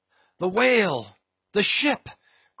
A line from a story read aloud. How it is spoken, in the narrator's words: cried the cringing oarsman